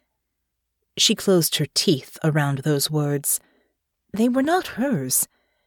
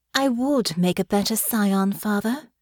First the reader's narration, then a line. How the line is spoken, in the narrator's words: she said, her voice cool and calm